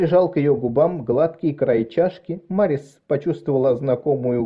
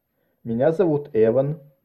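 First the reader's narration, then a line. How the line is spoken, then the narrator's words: Plain. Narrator (Russian): ответил он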